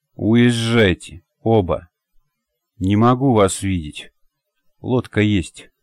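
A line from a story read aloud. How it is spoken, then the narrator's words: Dull, lifeless voice. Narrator (Russian): сказал глухим, совершенно неживым голосом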